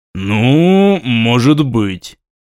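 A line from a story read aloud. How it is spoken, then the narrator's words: Doubtful drawl, young prince. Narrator (Russian): с сомнением протянул княжич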